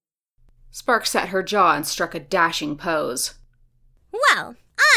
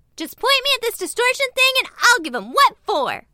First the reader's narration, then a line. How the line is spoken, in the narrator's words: She said fiercely